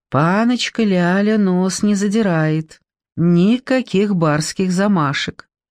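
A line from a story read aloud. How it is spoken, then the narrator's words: Approving tone. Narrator (Russian): сказал мне очень одобрительным тоном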